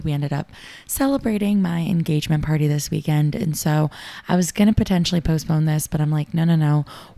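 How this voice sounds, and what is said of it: Raspy, hoarse voice. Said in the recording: “my voice is super raspy ... I'm pretty sure a raspy voice just sounds really cool”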